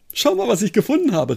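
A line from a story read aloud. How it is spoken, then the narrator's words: Excited call. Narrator (German): rief er aufgeregt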